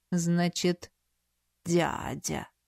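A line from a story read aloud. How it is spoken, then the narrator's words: Bishop's drawl. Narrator (Russian): протянул епископ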